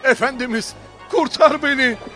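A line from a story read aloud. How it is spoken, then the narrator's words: Shouted. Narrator (Turkish): diye bağırdı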